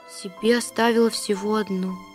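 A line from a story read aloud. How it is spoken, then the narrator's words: Quiet. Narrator (Russian): проговорила она тихо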